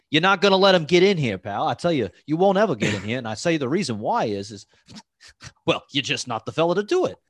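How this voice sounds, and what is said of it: Imitates a film noir tough-guy voice. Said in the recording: “It'd be really great if you did a Humphrey Bogart accent ... old school film noir look”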